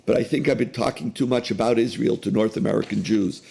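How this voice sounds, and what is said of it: Very hoarse voice. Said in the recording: “my voice is very hoarse ... my throat is another casualty”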